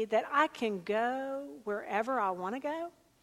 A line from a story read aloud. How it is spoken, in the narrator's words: the young woman said hesitantly